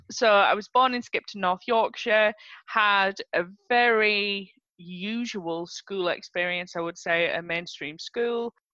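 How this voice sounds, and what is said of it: North Yorkshire English accent. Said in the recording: “I was born in North Yorkshire, that I'm sure you can tell from my accent”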